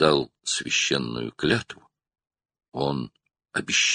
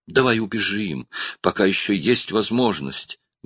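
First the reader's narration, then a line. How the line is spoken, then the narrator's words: Pleading. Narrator (Russian): взмолилась она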